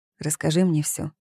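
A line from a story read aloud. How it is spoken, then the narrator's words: Calm tone. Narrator (Russian): спокойным тоном произнёс он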